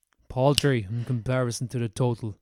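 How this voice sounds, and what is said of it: Thanos character impression. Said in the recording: “That does sound like something Thanos would say ... That's my Thanos impression.”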